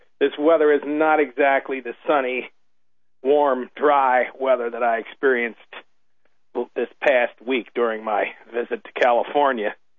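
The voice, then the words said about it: Hoarse voice. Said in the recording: “You'll forgive me if I'm a little hoarse here this evening, but that's exactly what I am.”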